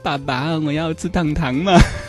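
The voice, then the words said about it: Coquettish, babyish cutesy voice. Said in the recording (Chinese): “像你小时候那么嗲的那样来说话 ... 耍嗲”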